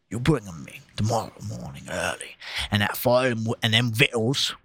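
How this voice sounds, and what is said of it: Put-on accent while reading aloud. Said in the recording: “My fucking accent is failing me. ... No, it's good. It's good.”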